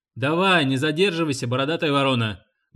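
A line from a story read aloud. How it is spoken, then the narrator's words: Barking shout. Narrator (Russian): гаркнул билетер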